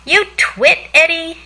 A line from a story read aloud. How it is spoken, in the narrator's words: she yelled